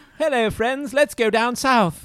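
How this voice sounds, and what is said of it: Forced English accent. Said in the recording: “What's your like forced English accent? If you're trying to sound like Tracer from Overwatch.”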